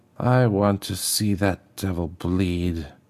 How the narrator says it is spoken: she whispered

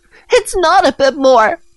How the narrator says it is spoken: Nancy shouted

